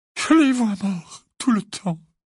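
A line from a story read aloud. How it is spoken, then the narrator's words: Moaning. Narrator (French): gémit Mrs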